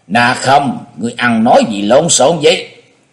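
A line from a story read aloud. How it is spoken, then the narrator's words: Angry stern shout. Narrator (Vietnamese): Thiết Mộc Lê giận dữ nghiêm nghị quát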